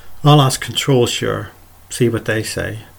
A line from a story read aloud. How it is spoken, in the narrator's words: He sighed deeply, said